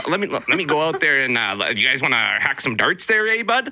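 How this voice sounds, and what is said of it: Exaggerated heavy Canadian accent. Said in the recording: “the Canadian accent ... they're talking in like the hockey speak ... they're going heavy like Ontario ... Northwest Ontario ... Letterkenny style”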